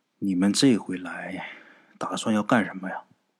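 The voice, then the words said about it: Quiet, hushed question. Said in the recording (Chinese): “这小圆帽就很小声的问吴大师”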